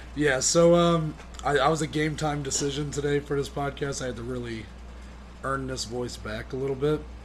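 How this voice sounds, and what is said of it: Raspy, partly lost voice. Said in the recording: “I lost my voice... have made me lose my voice, kind of... A little raspy.”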